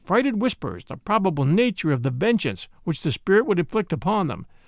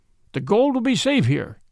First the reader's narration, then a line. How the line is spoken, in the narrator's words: cried one